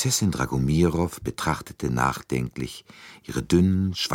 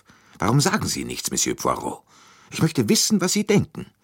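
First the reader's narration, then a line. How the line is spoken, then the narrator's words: Brusque, irritated question. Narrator (German): mit jähem Unmut fragte sie schroff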